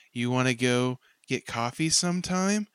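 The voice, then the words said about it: Put-on cute girl voice. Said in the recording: “pretend to be like cute girls ... the accent.”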